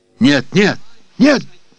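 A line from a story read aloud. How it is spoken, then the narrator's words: Childlike scream. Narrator (Russian): закричал я, словно малое дитя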